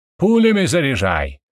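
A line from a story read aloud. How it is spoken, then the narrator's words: Shouting out. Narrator (Russian): выкрикнул я Стасу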